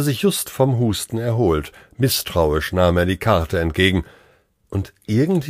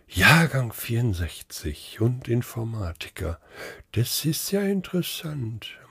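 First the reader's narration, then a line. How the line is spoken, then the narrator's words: Murmuring. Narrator (German): murmelte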